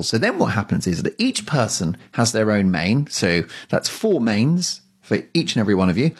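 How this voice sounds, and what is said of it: Classy British accent. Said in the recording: “a classy British accent”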